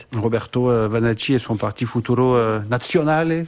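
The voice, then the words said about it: Italian accent on Italian names. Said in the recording (French): “si je prononce bien ... avec l'accent italien ... très bel accent”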